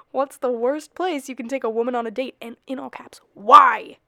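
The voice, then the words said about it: Yelling. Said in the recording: “I'm yelling.”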